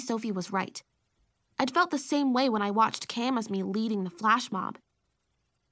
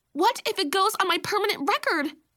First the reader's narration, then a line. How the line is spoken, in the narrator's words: Baby Sophie screeched